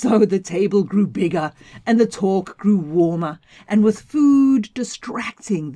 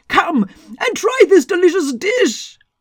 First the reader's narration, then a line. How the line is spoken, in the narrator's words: the god couldn't help but shout out for anyone who could hear